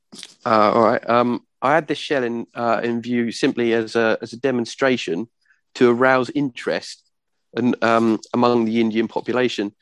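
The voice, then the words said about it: Weak attempt at Cockney accent. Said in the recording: “do a bit of a Cockney accent ... I'm trying to. It's just not coming out very well. ... Coming out like Michael Caine instead.”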